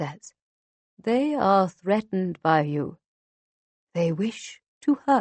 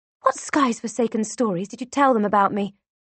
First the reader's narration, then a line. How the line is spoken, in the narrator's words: I hiss at him